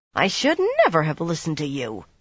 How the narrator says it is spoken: she growled

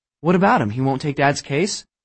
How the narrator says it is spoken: Abby stammered

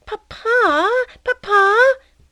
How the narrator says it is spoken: Athalie, pulling at his coat, cried

